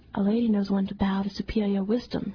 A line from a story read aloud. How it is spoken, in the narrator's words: she said